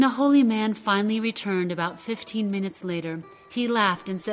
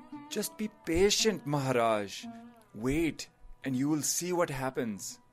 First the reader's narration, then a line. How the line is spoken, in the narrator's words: The advisor sighed and said